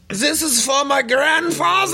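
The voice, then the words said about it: Put-on German accent. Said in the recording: “your German impression”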